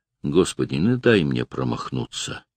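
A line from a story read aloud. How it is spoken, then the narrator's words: Absent whisper. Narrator (Russian): бездумно прошептал Владимир и осекся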